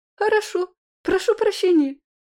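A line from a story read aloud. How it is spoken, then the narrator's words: Timid babble. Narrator (Russian): пролепетала она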